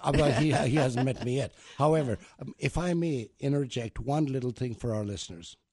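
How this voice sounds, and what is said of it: Noticeable foreign accent. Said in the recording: “Must be my accent.”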